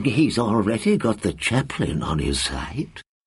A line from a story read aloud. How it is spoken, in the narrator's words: the librarian murmured in reply